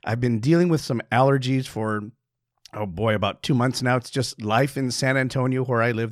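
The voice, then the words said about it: Slightly hoarse voice. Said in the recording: “You might hear my voice right now. It sounds a little bit hoarse.”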